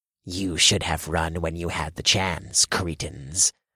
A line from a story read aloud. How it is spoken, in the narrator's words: one of the blessed snarled